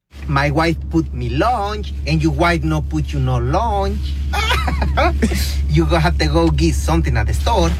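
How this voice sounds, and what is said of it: Very heavy foreign accent. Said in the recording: “he has a very heavy accent.”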